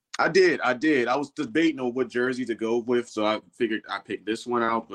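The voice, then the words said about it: Hoarse, worn-out voice. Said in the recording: “my voice is kind of shot a little bit”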